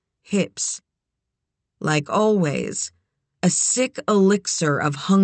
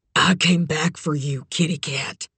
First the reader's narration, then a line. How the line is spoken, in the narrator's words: rasped